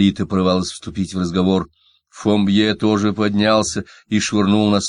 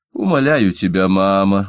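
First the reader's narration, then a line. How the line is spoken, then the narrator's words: Weary. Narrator (Russian): устало проговорила Кладетта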